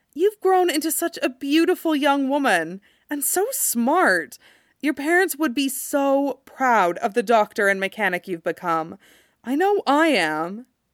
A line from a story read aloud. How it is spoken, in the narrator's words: she says warmly